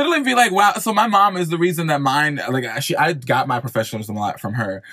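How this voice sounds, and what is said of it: Usual voice. Nothing is said of it.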